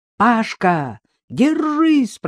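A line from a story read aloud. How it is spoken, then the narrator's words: Shouting. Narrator (Russian): прокричал Дмитрий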